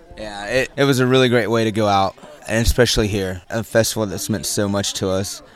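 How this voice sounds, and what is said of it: Slightly hoarse voice. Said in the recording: “As you can tell, I'm a little bit hoarse”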